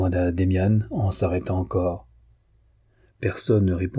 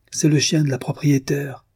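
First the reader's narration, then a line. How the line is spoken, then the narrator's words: Exclaiming while running. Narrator (French): s'écria en courant à la porte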